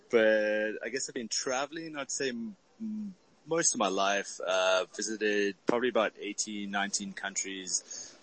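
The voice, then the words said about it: South African accent. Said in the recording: “I'm originally from Cape Town, South Africa, so I speak a little funny with an accent.”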